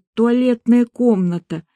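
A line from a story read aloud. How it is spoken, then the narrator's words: Nauseated hoarse croak. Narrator (Russian): Ощутив порывы к извержению желудка, я, шатаясь, прохрипела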